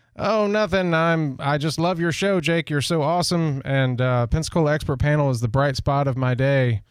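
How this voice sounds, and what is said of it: Weak impression of the absent guest. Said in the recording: “I don't do a very good Malcolm impression”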